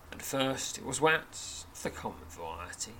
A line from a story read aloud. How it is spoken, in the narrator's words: says gravely